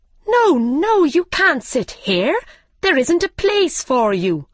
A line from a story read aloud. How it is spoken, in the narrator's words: they cried